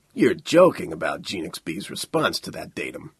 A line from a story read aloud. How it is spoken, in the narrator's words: Stafford said thickly